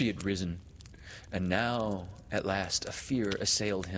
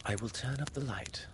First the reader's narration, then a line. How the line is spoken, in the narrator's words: she said